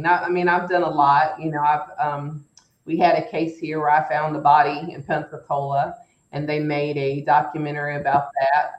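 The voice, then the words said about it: Southern drawl American accent. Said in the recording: “my Southern drawl”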